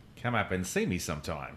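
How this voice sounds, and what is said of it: Australian accent drifting toward New Zealand. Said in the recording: “can you do it in an Australian accent, though? ... He's so much better at it than both of us. ... I felt like you were probably veering towards Kiwi.”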